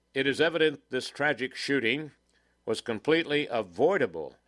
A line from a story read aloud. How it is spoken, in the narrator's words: his attorney said